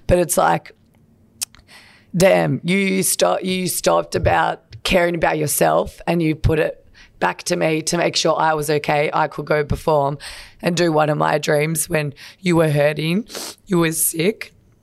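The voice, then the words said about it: Emotional, tearful voice. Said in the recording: “I don't know why I'm getting emotional”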